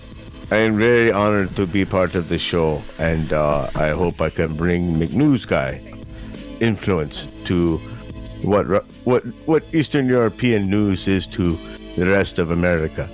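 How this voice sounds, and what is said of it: Put-on Slavic accent. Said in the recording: “he has an accent ... He's Slavic. He should have an accent.”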